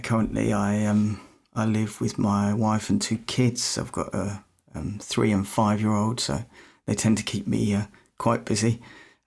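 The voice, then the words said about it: British accent. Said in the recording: “probably can tell by the accent, I'm not from Canada, not from America, I'm from the UK.”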